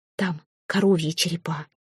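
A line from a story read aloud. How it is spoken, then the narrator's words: Furtive whisper. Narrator (Russian): шепнула мать, будто украдкой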